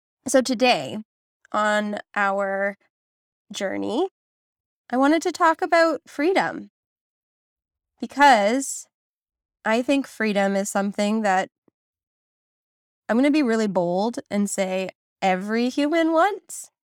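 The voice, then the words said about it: Voice sounds different, like a cold. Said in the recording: “I sound a bit different today than usual. I am getting over a really bad cold.”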